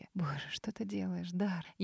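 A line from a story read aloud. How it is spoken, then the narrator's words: Barely audible whisper. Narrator (Russian): Едва слышно прошептала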